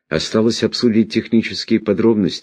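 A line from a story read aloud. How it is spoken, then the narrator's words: Sighing. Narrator (Russian): вздохнул сэр Джуфин Халли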